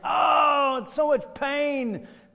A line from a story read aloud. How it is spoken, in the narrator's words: he screams